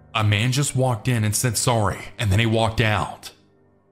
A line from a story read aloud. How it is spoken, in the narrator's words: Sammy started yelling